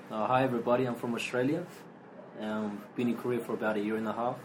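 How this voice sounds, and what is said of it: Australian accent. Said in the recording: “So everybody can hear the Australian accent.”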